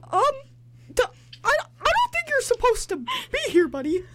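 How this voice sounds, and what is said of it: Mickey Mouse cartoon voice. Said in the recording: “do a Mickey Mouse impression”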